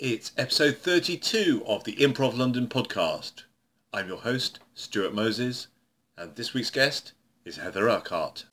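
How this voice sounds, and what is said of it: Booming ringmaster-style announcer delivery. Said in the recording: “you sounded like a ringmaster”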